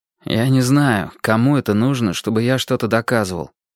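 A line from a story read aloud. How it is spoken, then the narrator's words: Gloomy objection. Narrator (Russian): возразил мрачно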